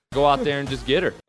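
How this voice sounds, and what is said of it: Put-on Canadian accent. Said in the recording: “That's the Canadian accent right there... that voice comes from Brad Sinopoli. Like, that's where I got my Canadian accent from”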